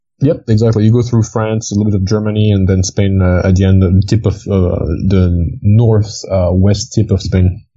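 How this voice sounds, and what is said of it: Slight blended French accent. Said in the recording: “You have a slight accent. ... I'm from France, technically. I grew up near Switzerland, so it's like a blend of a whole bunch of things.”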